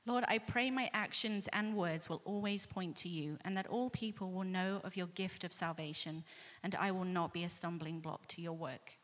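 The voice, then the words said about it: Distinctive accent. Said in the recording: “in that cool accent”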